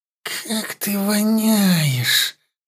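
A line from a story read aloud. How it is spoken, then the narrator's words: Through gritted teeth. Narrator (Russian): выдавила эльфийка сквозь зубы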